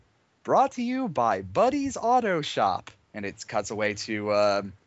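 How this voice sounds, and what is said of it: Usual voice. Nothing is said of it.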